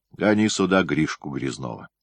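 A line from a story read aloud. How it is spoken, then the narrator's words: Stern. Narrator (Russian): строго сказал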